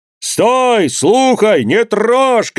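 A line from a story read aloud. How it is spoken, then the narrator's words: Several voices shouting. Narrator (Russian): кричали голоса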